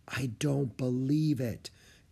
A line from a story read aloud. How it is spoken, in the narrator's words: Annie said in a hushed voice